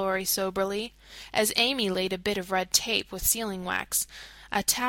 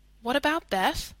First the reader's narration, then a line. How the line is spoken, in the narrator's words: asked anxiously